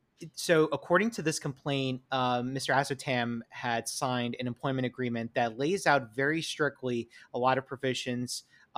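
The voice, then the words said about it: New York accent. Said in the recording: “it's my New York accent for whatever reason that's making it sound like Chuck”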